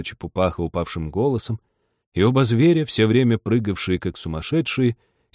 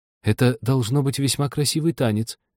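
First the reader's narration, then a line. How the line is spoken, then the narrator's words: Timid. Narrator (Russian): робко проговорила Аня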